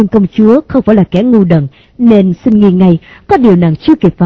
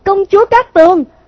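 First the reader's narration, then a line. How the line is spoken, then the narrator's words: Panicked shout. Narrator (Vietnamese): Hắn hốt hoảng thét to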